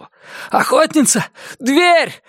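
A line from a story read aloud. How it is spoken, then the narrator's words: Breathless shout. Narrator (Russian): задыхаясь, закричал он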